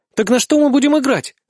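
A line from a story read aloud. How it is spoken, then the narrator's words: Joyful declaration. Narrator (Russian): заявляет победительница, радостно хлопая в ладоши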